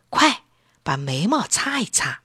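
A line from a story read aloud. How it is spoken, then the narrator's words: Soft, gentle. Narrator (Chinese): 陈小琴轻声说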